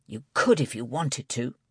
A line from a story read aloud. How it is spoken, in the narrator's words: Steve hissed